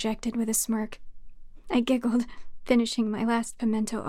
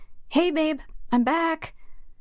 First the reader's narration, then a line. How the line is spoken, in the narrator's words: I called out